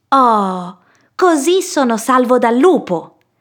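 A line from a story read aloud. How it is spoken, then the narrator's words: Exclaiming. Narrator (Italian): esclamò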